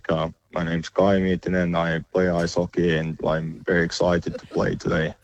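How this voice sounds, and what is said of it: Put-on robotic monotone Finnish accent. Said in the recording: “can you please impersonate a Finnish accent ... the Finnish accent is famously pretty robotic and monotone ... he sounds like Thor”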